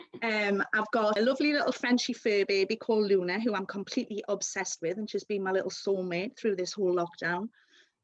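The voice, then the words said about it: Geordie accent. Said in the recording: “born in London and then moved to Newcastle at a very young age, so hence the lovely Geordie accent that I've got”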